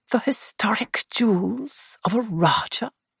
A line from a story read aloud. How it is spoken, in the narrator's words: murmured Bunch ecstatically